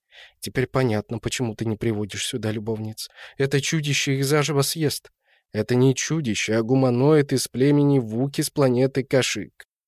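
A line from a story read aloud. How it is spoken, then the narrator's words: Good-natured explanation. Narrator (Russian): благодушно пояснил Антон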